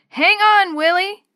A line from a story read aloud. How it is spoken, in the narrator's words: Dee Dee shouted